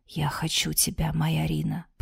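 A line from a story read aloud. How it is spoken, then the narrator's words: Whisper. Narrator (Russian): прошептал Светлый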